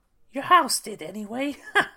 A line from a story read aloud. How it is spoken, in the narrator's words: replied the little old woman with a laugh